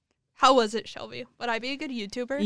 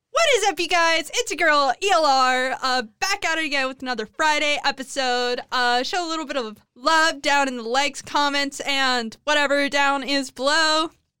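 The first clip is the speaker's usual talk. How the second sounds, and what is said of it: Imitates a YouTuber intro voice. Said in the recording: “YouTube intro and outro impersonations”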